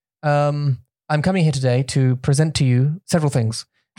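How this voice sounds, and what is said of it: Formal British prime-minister-like accent. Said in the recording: “I sound like a prime minister”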